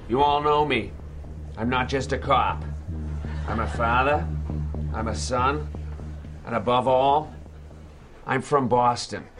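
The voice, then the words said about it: Boston accent. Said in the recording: “Boston Accent. ... the fake trailer for the fake movie Boston Accent”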